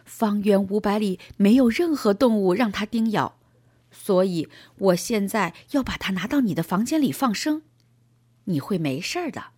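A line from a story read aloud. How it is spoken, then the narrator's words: Smiling. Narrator (Chinese): 他笑着继续说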